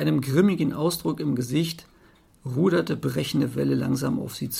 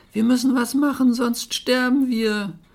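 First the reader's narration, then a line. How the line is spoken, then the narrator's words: Shrieking. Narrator (German): Nur Schnee auf Berg kreischte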